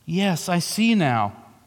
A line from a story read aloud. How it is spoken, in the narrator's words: said Jill in a heavy, hopeless tone